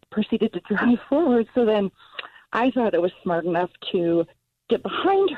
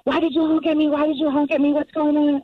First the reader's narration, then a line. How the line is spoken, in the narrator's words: screaming